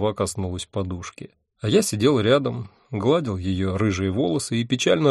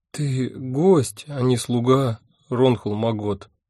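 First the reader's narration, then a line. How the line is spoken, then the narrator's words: Unhappy voice. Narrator (Russian): несчастным голосом сказала она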